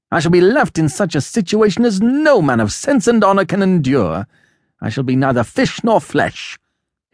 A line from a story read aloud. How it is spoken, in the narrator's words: cried